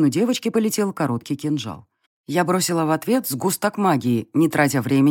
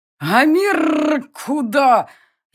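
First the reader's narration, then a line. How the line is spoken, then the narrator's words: Furious near-human growl. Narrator (Russian): яростно прорычала оскаленная пасть почти человеческим голосом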